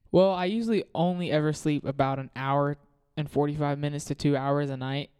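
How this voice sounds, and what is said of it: Tired, low-energy voice. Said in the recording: “I know it might not sound like I'm happy right now. My voice might seem a little, I'm really tired.”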